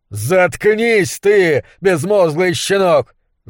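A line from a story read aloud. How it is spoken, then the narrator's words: Furious yell. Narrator (Russian): заорал монстролог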